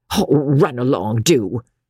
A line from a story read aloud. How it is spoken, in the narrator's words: retorted the fat midwife testily, tired, hungry, wanted her coffee badly